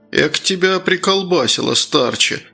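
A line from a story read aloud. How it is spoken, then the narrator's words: Sighed. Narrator (Russian): вздохнул Круглов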